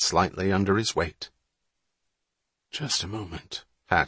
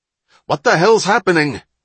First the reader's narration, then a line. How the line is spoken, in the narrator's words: the captain shouted